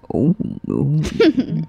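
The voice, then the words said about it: Super mellow deep voice. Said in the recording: “A super mellow, deep voice.”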